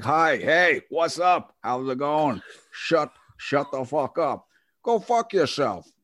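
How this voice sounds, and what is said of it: Put-on New York accent, Scottish-tinged. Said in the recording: “the New York accent ... You were kind of merging into Sean Connery there”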